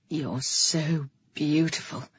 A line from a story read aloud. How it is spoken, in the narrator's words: breathed over my lips